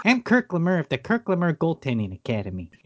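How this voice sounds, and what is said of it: Weird unplaceable put-on accent. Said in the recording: “He's got this weird accent.”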